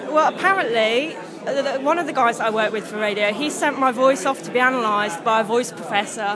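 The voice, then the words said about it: Hard-to-place accent. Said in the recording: “I've got an inexplicable accent ... it's like non-easy to place anywhere.”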